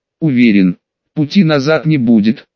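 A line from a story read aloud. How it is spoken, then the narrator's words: Calm reply. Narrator (Russian): Рон спокойно ответил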